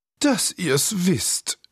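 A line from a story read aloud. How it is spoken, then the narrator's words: Bored sighing cat. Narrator (German): seufzte die Katze gelangweilt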